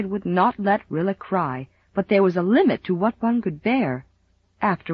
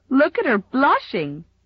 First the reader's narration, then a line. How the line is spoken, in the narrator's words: giggled Mamie Taylor